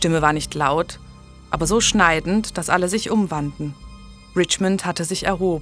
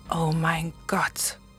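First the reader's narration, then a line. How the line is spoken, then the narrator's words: Whisper. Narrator (German): flüsterte Julian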